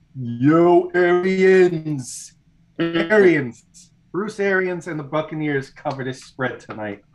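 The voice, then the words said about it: Impression of a movie character voice. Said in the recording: “I'm going to do my best impersonation of Rocky”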